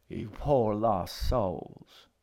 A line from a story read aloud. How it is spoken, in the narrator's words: she murmured from her chair